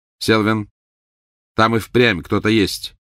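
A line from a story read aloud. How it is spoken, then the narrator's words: Sharp voice. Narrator (Russian): резким голосом произнес второй волшебник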